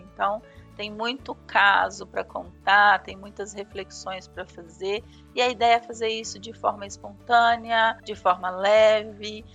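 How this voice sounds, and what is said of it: Brazilian Minas Gerais accent. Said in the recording (Portuguese): “Eu sou aqui mineirinha de Belzonte... esse sotaque, né?... adoro seus podcasts por conta do sotaque”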